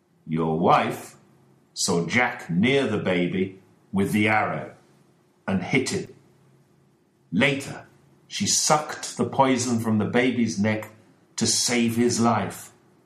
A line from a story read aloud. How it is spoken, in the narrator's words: said Holmes